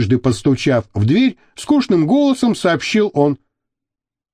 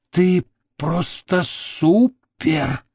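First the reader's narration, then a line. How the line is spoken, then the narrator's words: Admiring whispered exclamation. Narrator (Russian): шепотом воскликнула Мириам, с восхищением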